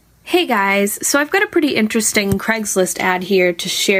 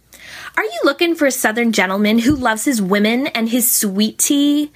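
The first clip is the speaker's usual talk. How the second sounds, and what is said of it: Imitated teenage girl voice. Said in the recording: “in my best teenage voice”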